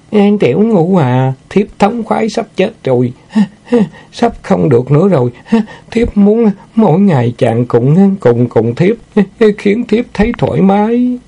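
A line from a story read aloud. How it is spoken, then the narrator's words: Moaning. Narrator (Vietnamese): Nguyệt Lâm rên rỉ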